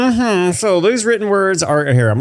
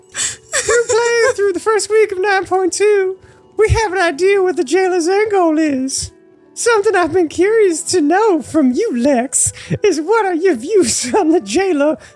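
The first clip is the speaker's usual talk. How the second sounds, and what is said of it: Southern belle voice. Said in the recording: “I'm going to even do an Allie impression ... Southern ... Everyone's Southern when I do this crap ... Allie, the Southern Belle.”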